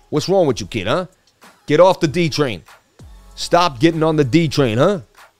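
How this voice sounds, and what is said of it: Put-on New York accent. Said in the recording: “I just love the New York accent”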